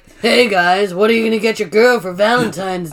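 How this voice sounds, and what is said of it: Deep growly imitated voice. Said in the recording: “growling into a microphone ... Doing his voice hurts my throat so much”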